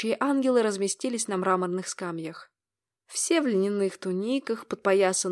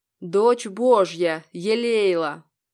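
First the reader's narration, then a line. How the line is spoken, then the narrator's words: Loud proclamation. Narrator (Russian): произнес он громко, чтобы его услышал каждый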